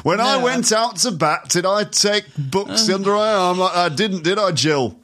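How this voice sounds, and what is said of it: Geoffrey Boycott impression, Yorkshire voice. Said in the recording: “I sound like Jeffrey Boycott, not Alan Bennett ... that's Jeffrey Boycott, a famous English”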